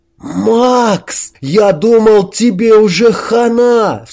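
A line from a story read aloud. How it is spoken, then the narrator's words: Cried out. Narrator (Russian): вскрикнул Хорек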